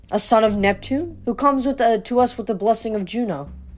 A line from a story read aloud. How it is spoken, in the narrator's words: said coldly